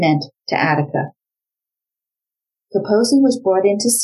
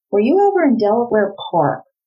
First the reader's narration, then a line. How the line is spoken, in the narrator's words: Rozanski asked him